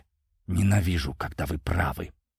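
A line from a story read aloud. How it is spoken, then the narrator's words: Hissed. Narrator (Russian): прошипела Дана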